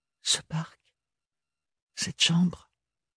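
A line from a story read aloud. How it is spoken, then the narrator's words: Whispered. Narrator (French): chuchota Ophélie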